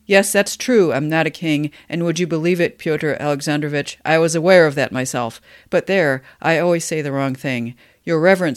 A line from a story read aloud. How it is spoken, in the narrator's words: he cried with sudden pathos